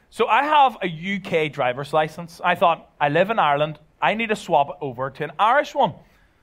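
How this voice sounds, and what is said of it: Belfast Northern Irish accent. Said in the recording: “I'm originally from Belfast, as you could probably tell by my accent.”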